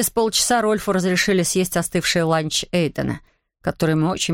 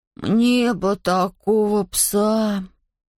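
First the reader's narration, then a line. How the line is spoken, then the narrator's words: Envious drawl. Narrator (Russian): Завистливо протянул Шон через плечо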